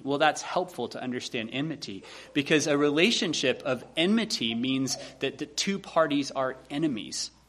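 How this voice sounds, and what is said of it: Slight Southern US accent. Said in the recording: “my slightly southern accent”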